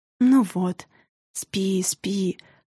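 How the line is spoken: Whisper. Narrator (Russian): прошептала мага

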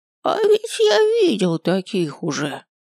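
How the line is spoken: Sudden creaky voice. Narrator (Russian): Вдруг проскрипел один из моих учеников

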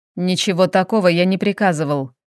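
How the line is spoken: Rumbling. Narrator (Russian): пророкотал Федерико

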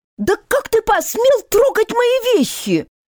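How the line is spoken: Shrieking again, indignant woman. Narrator (Russian): Вновь провизжала хозяйка испорченного имущества

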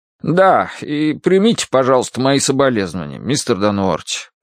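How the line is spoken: Embarrassed mumble. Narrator (Russian): пробормотал он смущенно

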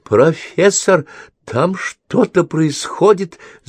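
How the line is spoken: Stammering, forced out. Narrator (Russian): запинаясь, выдавила она

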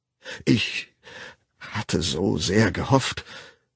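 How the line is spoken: Stammering. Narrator (German): wiederholte er stammelnd

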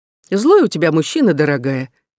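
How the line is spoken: Teasing remark, laughing. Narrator (Russian): извительно заметила я и засмеялась

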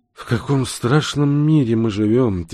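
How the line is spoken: Heavy sigh. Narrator (Russian): тяжело вздохнув, произнес профессор

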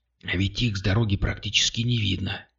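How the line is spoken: Whisper. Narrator (Russian): прошептала она

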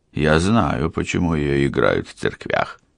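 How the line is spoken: Dry reply. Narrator (Russian): сухо ответил Алессандро

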